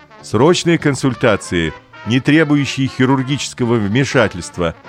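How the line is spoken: Loud announcement. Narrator (Russian): объявил папа громко

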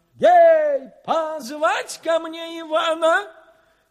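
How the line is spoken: Hurried shout. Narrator (Russian): Царь поспешно закричал

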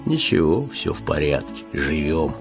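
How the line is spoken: Pensive sad bass voice. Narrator (Russian): Задумчивый грусть басил

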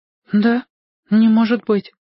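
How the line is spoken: Timid disbelief. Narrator (Russian): робко не поверила Гайка

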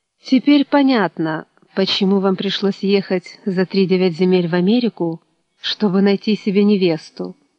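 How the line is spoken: Angry remark. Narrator (Russian): зло заметила

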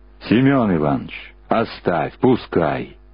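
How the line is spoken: Booming, cracking bass. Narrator (Russian): прогудел срывающийся бас

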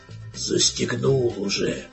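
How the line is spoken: Gruff grumble. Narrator (Russian): буркнул капитан

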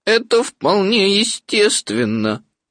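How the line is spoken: Sad. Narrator (Russian): грустно сказал Иа-Иа

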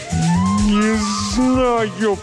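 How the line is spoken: Groaning. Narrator (Russian): простонал

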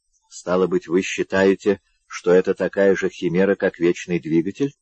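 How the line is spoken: Plain question. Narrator (Russian): спросил он

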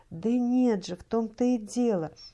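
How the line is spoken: Tearful exclamation, young woman. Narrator (Russian): воскликнула молодая мать, в ее глазах блеснули слезы

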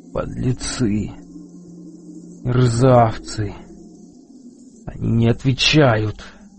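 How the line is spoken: Whispering. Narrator (Russian): прошептал Эл

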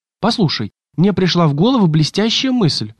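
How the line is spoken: Exclaimed. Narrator (Russian): воскликнул Ретив

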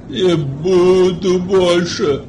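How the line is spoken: Hoarse wheeze. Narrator (Russian): Прохрипела голова

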